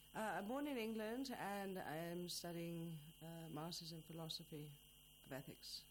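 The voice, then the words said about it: Noticeable non-native accent. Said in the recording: “your accent makes it quite obvious”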